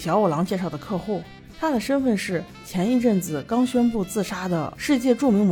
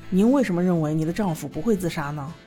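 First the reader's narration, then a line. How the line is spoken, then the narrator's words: Plain. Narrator (Chinese): 这位女士说了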